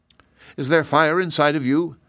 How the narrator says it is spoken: asked Shaggy

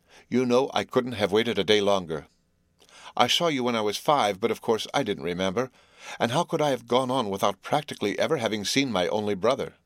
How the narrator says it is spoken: she said quickly

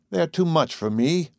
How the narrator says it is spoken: Carol sighed to Kennicott

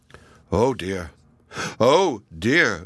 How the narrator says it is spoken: groaned Little Klaus up in the shed when he saw the good food disappearing

